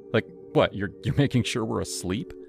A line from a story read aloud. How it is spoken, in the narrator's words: Leela laughed, a high tinkling sound